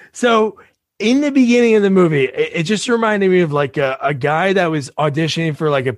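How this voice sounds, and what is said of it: Usual voice. Nothing is said of it.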